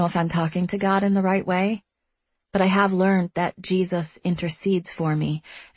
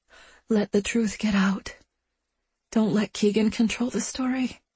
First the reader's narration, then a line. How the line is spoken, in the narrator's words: I whisper to God